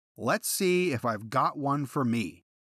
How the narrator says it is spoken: Hexum called out

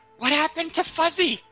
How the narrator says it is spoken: It screams at you and says

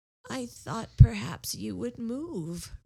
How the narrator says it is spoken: replied Rebecca hoarsely

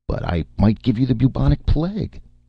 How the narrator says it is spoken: Martin said nervously

